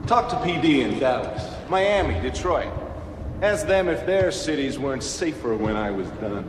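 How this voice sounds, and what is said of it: Fake, unconvincing American accent. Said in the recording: “amazingly, deliciously awful American accent ... It's so fake ... He's so good at just being terrible ... It sounds like he's almost trying to do a New York accent, and it's just not quite”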